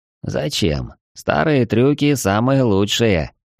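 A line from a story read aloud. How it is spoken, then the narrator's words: Tramp's hollow laugh. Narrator (Russian): глухо рассмеялся бродяга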